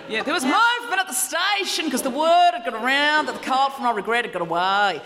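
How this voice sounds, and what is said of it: Weak put-on Australian accent. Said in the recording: “My Australian accent's not very good anymore.”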